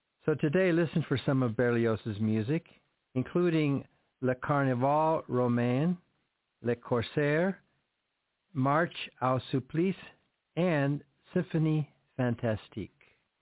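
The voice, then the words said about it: French words with Spanish accent. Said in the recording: “French spoken with a Spanish accent. ... I can't speak French very well.”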